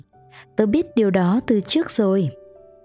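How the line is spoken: Smiling reply. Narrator (Vietnamese): Nó mỉm cười trả lời

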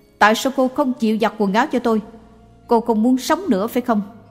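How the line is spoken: Shouting. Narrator (Vietnamese): Người nọ hét lên

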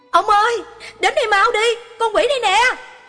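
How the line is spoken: Cry out. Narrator (Vietnamese): la lên

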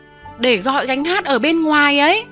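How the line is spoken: Teacher almost shouting. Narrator (Vietnamese): Cô giáo gần như muốn hét lên

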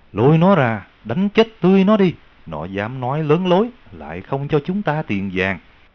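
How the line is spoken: Furious loud shout. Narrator (Vietnamese): ông đại dương kia nổi giận xung thiên, lớn tiếng quát rằng

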